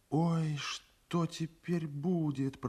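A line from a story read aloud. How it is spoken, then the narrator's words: Whisper. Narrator (Russian): прошептала Тамара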